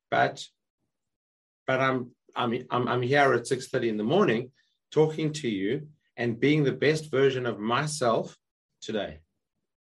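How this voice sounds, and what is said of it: Croaky voice. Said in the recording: “my voice is all croaky because I'm recovering from COVID.”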